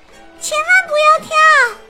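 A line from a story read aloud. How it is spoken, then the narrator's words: Shouting. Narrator (Chinese): 茉莉跟着大喊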